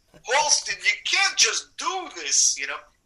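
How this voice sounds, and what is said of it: Imitated Borough Park Brooklyn accent. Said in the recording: “his accent, which is Borough Park, Brooklyn ... if I was trying to do Carl Epstein's voice like this, this is how he talks”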